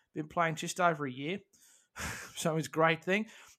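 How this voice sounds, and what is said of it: Put-on Australian accent. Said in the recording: “I've done the Australian accent”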